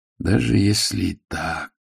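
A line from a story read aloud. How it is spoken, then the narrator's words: Dreamy voice. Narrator (Russian): сказал Ваймс все тем же мечтательным голосом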